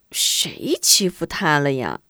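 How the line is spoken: Embarrassed mumble. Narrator (Chinese): 韩晶抿着嘴，不好意思的嘴里咕哝道

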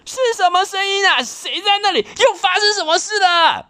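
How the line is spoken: Yelling. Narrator (Chinese): 小杰忍不住大叫

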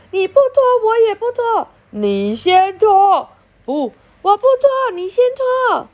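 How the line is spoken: Theatrical shouting. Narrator (Chinese): 老师像唱戏的人 也大吼

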